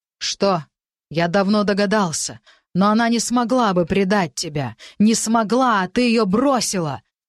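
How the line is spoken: Shouting. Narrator (Russian): Герман уже кричал на них

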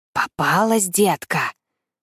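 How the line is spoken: Threatening whisper, beastly man. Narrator (Russian): Угрожающим шепотом произносит зверь

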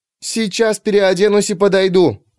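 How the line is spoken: Shouting. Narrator (Russian): крикнула она

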